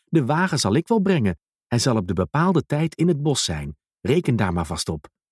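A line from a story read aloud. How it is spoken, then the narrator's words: Calling out. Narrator (Dutch): riep Duimpje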